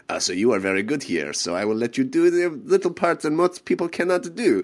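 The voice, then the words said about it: Thick French accent imitation. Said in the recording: “a very thick French accent”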